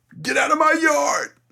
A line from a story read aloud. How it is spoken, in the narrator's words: you yell